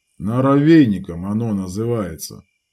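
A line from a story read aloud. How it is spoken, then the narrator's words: Grumbling. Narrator (Russian): проворчал Лютик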